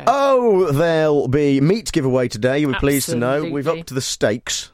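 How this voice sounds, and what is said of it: Congested voice with a cold. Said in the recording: “you've got a terrible cold ... I've got a little bit of a cold ... I do feel a little bit coldy”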